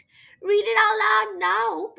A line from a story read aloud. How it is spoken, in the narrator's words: pleaded Benjamin, who loved Creepilla's thrilling stories